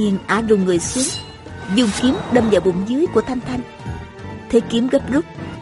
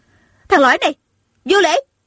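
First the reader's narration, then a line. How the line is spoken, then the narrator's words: Angry woman's shout. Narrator (Vietnamese): Tôn Trọng Quân giận dữ, ả bèn hét lên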